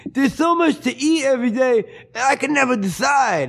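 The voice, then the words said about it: Impression of a man with Down syndrome. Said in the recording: “I'm going to do an impression of a guy with Down syndrome now.”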